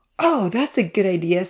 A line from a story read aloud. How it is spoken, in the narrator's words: laughed